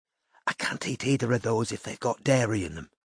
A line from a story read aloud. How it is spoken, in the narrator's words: Courtney whispered to Robin